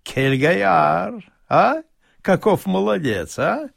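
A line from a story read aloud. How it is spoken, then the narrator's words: Amused, laughing. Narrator (Russian): Господин Пеночкин много смеялся уловки своего бурмистра и несколько раз сказал мне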